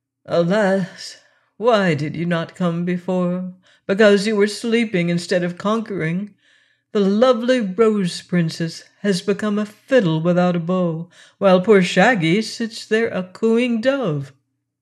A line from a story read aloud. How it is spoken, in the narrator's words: Files said to the dragon in a sad voice